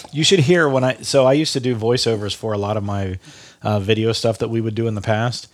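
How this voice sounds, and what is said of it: Nasal, congested voice. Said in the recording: “I'm a little nasally right now because I'm just a little stuffy”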